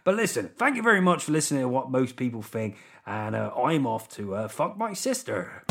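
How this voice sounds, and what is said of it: Put-on Welsh accent drifting West Country. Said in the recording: “I'm going to stick with the Welsh accent here to close the show. I realise it's gone West Country, hasn't it? It was always going to go West Country.”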